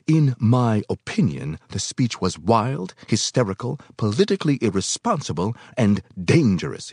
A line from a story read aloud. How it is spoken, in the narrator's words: he snapped